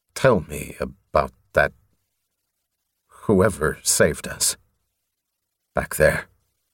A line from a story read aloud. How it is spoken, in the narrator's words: Stiffly, he said